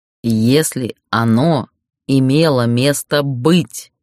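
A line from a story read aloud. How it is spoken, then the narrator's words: Through gritted teeth. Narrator (Russian): процедил Ярлис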